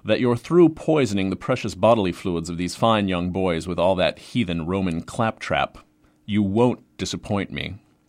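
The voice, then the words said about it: Pretentious New England accent. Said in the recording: “mimic him in a pretentious New England accent.”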